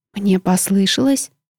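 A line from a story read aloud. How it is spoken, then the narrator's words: Whispered question. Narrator (Russian): шепотом поинтересовалась я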